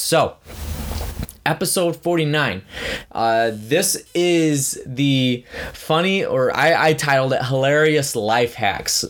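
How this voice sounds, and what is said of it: Slightly raspy voice. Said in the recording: “I feel like a cold is coming on right now ... my voice is going to be a little raspy”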